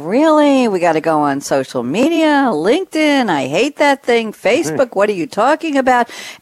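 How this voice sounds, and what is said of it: Old New York accent. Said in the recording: “not to do an old New York accent, but that's what I just did”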